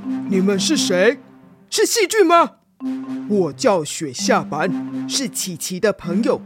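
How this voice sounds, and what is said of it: Low, deep, stern character voice. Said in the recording (Chinese): “一脸严肃，用很低沉的声音说”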